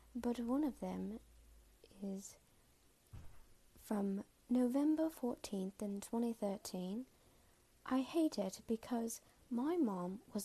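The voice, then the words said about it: Put-on British accent. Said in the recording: “in a British accent, and it may change as I go because my accent is already changing now, but I'm going to try to stick to being British”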